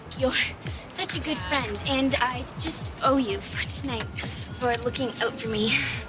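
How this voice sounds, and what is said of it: Thick, prominent Canadian accent. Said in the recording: “Terry has the most Canadian accent of anyone in this show ... The maple syrup these actors omit is just so prominent ... Thick and rich, you can just drizzle their accent on pancakes”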